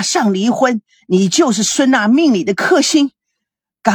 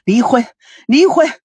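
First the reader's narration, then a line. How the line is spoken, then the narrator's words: Furious. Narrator (Chinese): 孙振怒不可遏的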